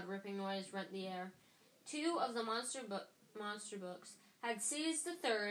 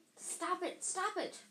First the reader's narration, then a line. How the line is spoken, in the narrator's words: cried the manager